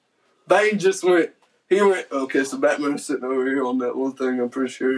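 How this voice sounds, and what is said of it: Strong regional accent. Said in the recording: “I feel like your accent's stronger than mine ... You went urge ... So your accent's like stronger.”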